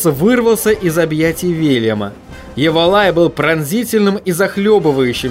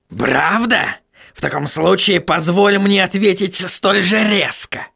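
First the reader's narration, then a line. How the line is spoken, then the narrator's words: Barked. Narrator (Russian): рявкнул господин Кноп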